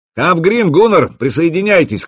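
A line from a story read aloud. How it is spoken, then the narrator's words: Shouting in Norse. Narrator (Russian): крикнул по-скандинавски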